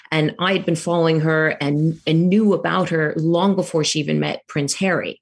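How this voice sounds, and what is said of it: Strong American accent. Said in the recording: “I know I have a strong American accent”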